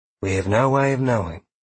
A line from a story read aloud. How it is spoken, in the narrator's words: Sheila responded in her usual calm voice